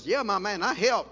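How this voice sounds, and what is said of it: Put-on Southern accent, little girl. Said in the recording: “in this southern accent.”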